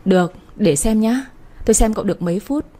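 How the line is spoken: Laughing speech. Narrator (Vietnamese): Chị Phương bật cười

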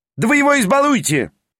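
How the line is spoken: Shouted. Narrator (Russian): прокричал Петр Степанович

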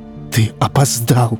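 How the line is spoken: Whisper. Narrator (Russian): прошептал он

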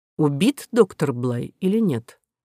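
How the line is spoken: Quiet question. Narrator (Russian): тихо спросил президент

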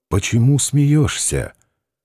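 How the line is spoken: Quiet hoarse question. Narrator (Russian): Варавка … спросил негромко, сипло

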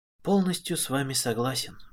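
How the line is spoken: Quiet. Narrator (Russian): тихо сказал отец

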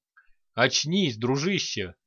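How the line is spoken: Chuckling. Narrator (Russian): хохотнул над духом Ланиг

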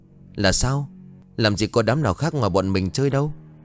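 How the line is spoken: Trembling. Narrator (Vietnamese): Anh Vũ bấy giờ run rẩy bảo

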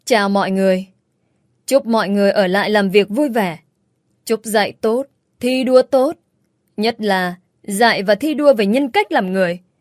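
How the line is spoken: Harsh laughing voice. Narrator (Vietnamese): tôi bật cười gằn giọng lên tiếng

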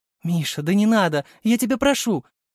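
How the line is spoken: Tearful pleading mother. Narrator (Russian): Взмолилась мама, вытирая бегущие по щекам слезы

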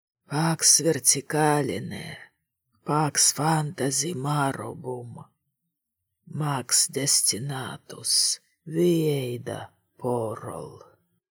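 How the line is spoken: Muttered. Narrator (Russian): пробормотал он

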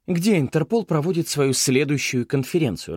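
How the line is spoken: Irritated question. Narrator (Russian): раздраженно спросила Мэй

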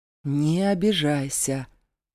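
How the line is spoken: Drawn-out drawl. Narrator (Russian): протянул Зейн

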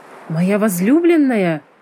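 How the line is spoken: Exclaimed. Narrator (Russian): воскликнул

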